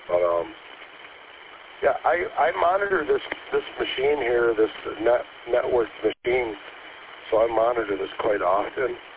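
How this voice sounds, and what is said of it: Weak, failing voice. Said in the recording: “I'm still getting over the flu ... My voice is starting to fail again”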